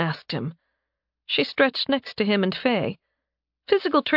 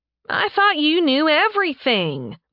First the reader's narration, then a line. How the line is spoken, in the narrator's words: the cat girl whined